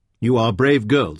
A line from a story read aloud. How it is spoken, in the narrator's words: said Tinat